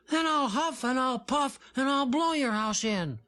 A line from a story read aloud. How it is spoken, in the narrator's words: little Jim piped up in the best growl he could manage